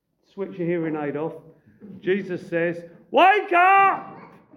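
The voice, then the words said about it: Raised, shouting voice. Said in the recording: “I'm going to raise my voice.”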